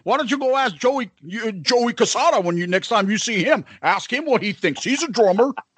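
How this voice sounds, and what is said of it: Nasal imitation of another person. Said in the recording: “why am I doing that voice? ... I like that little nasally”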